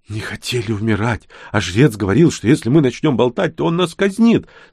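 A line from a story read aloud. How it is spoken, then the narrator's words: Hasty babbling. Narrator (Russian): сразу залепетал кобальт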